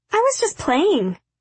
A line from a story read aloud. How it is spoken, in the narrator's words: he said brightly